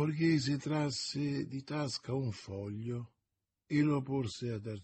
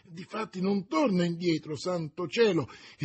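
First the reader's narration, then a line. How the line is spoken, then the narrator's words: Cursing exclamation. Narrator (Italian): esclamò il borghese imprecando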